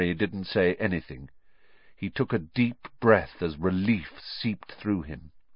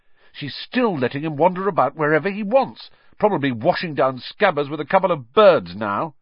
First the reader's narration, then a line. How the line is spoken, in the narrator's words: Ron said furiously